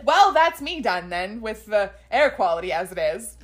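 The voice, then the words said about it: Put-on transatlantic accent. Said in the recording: “grow a transatlantic accent”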